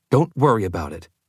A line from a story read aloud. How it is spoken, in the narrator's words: Alice said curtly